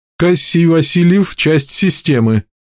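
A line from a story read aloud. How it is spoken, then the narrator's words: Muffled robotic answer. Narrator (Russian): глухо ответил один из ближайших роботов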